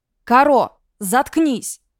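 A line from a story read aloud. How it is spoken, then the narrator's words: Barked. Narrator (Russian): рявкнули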